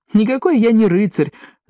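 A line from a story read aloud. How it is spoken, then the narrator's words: Laughing. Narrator (Russian): засмеялся Паки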